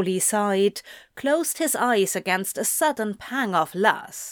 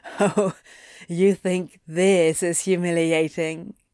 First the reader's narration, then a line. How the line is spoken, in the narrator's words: Anthony chuckled